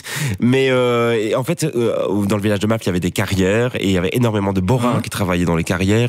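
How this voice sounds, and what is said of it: Regional Belgian French accent. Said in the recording (French): “À entendre ton accent, j'imaginais que tu étais originaire plutôt du Borinage, de la région de Mons ... Hatte, on a plusieurs accents. Hatte, l'accent de l'Est et l'accent de l'Ouest ... moi, j'ai l'accent de l'Est”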